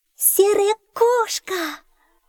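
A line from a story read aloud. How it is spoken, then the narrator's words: Joyful girl's exclamation. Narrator (Russian): радостно воскликнула девочка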